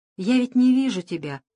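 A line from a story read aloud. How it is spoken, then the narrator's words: Doll's sigh. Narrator (Russian): вздохнула кукла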